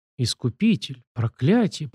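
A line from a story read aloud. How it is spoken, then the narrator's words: Muttering, near sobbing. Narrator (Russian): пробормотала она, и мне показалось, что даже всхлипнула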